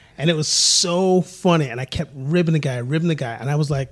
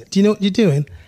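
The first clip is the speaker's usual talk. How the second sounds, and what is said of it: Put-on British accent. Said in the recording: “I did it in a British accent.”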